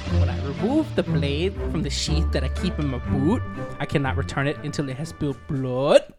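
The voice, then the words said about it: Unconvincing put-on accent. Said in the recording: “your accent needs work”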